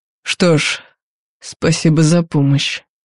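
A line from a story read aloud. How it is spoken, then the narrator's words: Through gritted teeth. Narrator (Russian): процедил Марк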